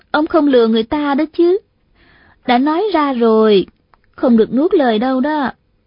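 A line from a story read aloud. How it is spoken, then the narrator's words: Smiling. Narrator (Vietnamese): Hà Thiết Thủ mỉm cười nói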